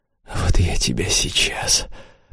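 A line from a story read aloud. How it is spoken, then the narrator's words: Hoarse. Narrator (Russian): прохрипел он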